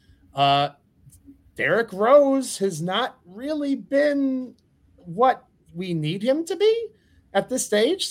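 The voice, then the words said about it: Speaks in a high-pitched voice. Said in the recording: “Sorry for using high voice.”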